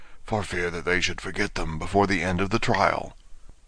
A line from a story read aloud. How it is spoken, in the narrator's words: the Gryphon whispered in reply